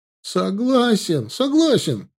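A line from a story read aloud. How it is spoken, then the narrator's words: Yell. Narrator (Russian): завопил Славка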